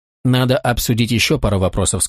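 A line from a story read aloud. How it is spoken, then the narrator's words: Plain. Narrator (Russian): сказал я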